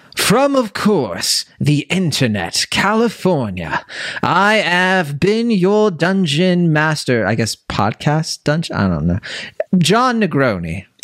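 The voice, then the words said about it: Put-on British accent. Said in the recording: “that British voice”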